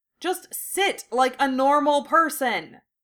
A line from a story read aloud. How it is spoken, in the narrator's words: Seamus hollered at Luna